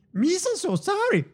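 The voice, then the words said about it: Imitates Jar Jar Binks voice. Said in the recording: “everyone thinks they do a Jar Jar, but they don't do the full Jar Jar. You have to go full Jar Jar... Which is amazing, by the way. Bravo.”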